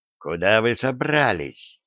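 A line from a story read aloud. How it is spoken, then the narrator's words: Menacing question. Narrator (Russian): Угрожающим тоном спросил Перрит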